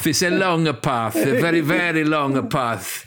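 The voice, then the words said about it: Italian-accented Antonio Conte impression. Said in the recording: “my Conte impression. ... It covers really all Italians.”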